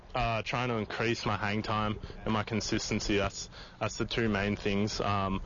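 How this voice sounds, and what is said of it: Australian accent. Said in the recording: “I just love his Aussie accent. We got an Australian punter.”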